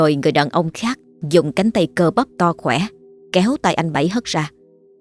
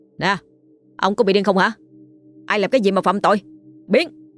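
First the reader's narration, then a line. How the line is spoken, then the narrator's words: Shouting in someone's face. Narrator (Vietnamese): Một người trong số họ ... hét vào mặt anh Bảy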